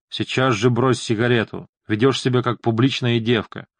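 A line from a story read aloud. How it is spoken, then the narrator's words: Growled. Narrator (Russian): Он прорычал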